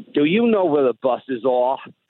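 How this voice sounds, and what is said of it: Put-on New York accent. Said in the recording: “I'm going to try and do a New York accent.”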